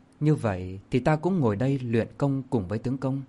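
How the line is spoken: Gentle soft reply. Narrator (Vietnamese): Công chúa nhỏ nhẹ đáp

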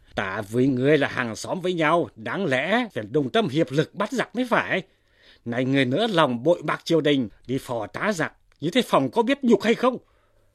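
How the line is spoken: Angry reproachful shout. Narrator (Vietnamese): Trương Thanh quát lên rằng

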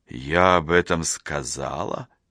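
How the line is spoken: Quiet, as if to herself. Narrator (Russian): Тихо, будто сама у себя, уточнила она

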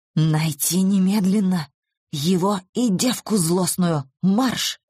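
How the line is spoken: Whispered growl. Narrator (Russian): прорычал он шепотом

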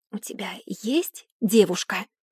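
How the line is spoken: Whisper. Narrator (Russian): прошептала Бекка

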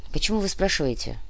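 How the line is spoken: Sigh. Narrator (Russian): вздохнул Кортес

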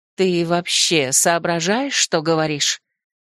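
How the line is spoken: Hiss. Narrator (Russian): зашипела

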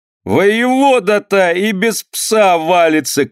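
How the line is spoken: Shout with laughter, young man. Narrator (Russian): крикнул молодой пивоваров с хохотом

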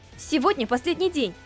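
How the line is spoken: Angry, displeased reply. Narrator (Russian): Сердито ответила, недовольная тем, что они так и не ответили на ее вопрос

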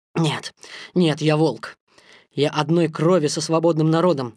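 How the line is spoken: Exclamation. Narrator (Russian): воскликнул Маугли

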